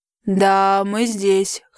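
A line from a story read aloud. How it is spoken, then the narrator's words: Hoarse. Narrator (Russian): хриплым голосом откликается Рис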